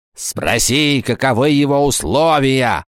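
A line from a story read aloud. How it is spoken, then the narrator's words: Hissed angrily, female. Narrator (Russian): злобно прошипела она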